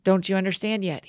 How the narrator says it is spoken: he asked them

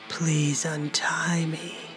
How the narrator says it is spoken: he breathed out the words with a low, rumbling voice

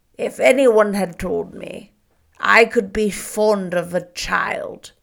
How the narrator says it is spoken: said, his voice harsh, low, and unsteady

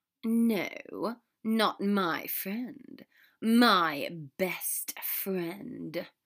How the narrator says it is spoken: Draco said, letting his tone and gaze darken

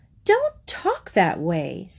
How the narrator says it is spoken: said her mother crossly

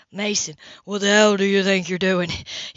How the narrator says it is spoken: he snarled

